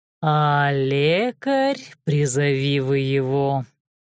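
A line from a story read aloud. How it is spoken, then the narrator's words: Nasty drawl. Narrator (Russian): Тем же гаденьким тоном протянул шеф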